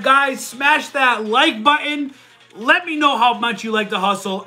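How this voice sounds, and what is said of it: Loud, yelling delivery. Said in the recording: “sorry I'm yelling. ... I get loud.”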